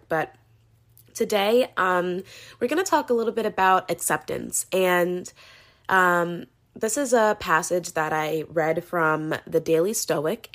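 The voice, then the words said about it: Sore-throated, unwell-sounding voice. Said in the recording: “I wasn't feeling well, still am not feeling well. You could probably hear it in my voice. I have a sore throat.”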